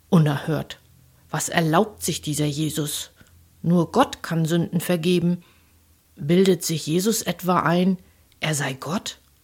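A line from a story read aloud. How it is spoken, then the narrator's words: Indignant murmuring, several scholars. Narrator (German): Einige Gelehrte murmelten empört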